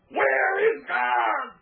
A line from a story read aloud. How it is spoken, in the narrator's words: The boy screamed